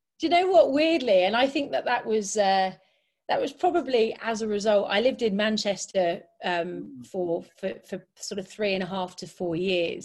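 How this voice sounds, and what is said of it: Slight northern English Manchester accent. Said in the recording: “sounding a bit like you're north of England somewhere ... approaching Scotland, but your accent's coming, you're converging down towards the southeast ... somewhere like, I suppose, Yorkshire, Lancashire ... that little Manc twang”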